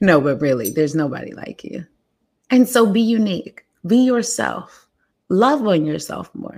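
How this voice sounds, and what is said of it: Usual voice. Nothing is said of it.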